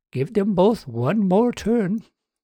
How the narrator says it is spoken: Justine said loudly

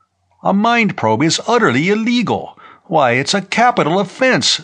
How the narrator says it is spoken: Ledoux exclaimed

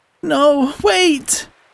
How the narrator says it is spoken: moaned

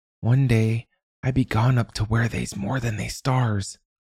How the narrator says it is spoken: Sammy whispered

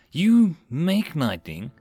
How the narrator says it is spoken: Rin sighed

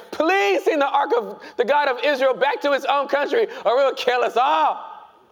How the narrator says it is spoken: begged them

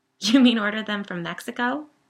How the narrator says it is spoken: said, laughing nervously

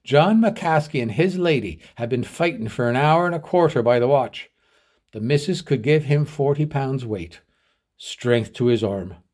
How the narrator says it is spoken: he exclaimed

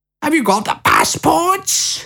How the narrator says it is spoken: cried Lucy

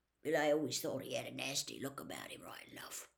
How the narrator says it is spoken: grunted a man

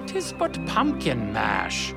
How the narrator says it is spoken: A few scoffed

